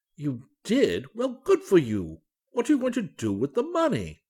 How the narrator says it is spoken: cried Dr

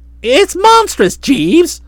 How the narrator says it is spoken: cried

